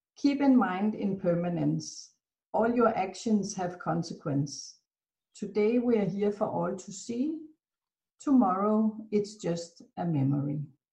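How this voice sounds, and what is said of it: Beautiful accent, expressive cadence and inflection. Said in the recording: “I love your cadence. I love your voice inflection. I love your accent. It's beautiful.”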